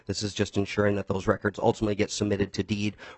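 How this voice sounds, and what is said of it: Voice rough from illness. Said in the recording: “I apologize for my voice. I'm getting over being sick.”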